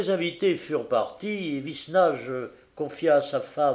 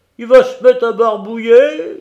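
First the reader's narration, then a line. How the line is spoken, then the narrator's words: Uncle howling. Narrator (French): hurla l'oncle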